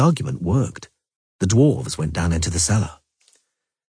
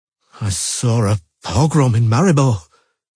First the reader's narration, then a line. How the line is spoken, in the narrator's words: he stammered out